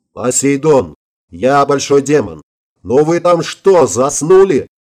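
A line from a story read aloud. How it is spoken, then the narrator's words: Yelling. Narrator (Russian): заорал я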